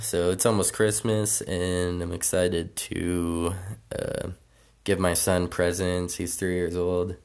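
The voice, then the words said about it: Rough, sick-sounding voice. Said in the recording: “I'm sorry if my voice is shitty. I'm a little bit sick”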